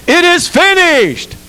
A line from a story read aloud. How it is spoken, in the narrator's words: He cried